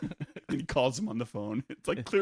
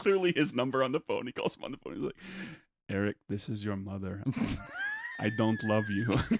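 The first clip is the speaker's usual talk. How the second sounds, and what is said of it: Put-on vampire-style accent. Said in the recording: “I'm doing a vampire accent, but he's a Chinese guy ... sounds like one ... He's got a strong accent.”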